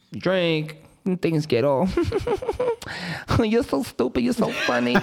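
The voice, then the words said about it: Imitates another person's voice. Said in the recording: “my Rosa Perez impression ... That was a very good role”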